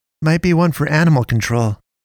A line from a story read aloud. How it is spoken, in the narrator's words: Katie said